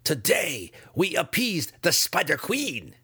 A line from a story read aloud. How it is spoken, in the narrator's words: responded in kind